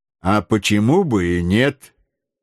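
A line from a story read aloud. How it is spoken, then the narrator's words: Calm. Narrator (Russian): спокойно сказал Макнапс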